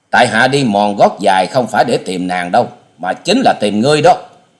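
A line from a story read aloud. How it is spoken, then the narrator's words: Resentful, loud snort. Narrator (Vietnamese): Thù Thế Hận vẫn hậm hực hừ to nói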